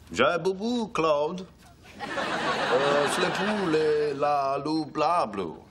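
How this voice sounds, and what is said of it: Fake French gibberish. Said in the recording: “French it up... speak French?”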